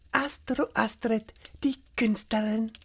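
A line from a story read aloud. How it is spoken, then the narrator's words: Soft amused self-talk. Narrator (German): sagte sie leise zu sich selbst und schmunzelte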